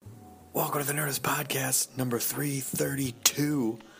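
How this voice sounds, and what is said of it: Whispering. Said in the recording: “I'm whispering because I'm in my room at South by Southwest. It's very late at night.”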